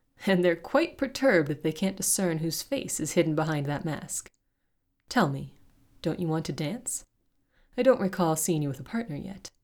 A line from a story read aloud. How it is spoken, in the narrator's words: chuckled